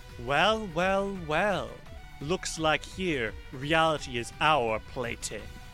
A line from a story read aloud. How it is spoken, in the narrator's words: she kind of sneers and says